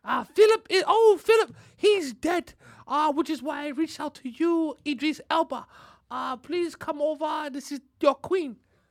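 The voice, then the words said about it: Very proper British accent. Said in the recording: “Is that a British accent? ... It's her accent. ... I can only imagine she sounds very proper.”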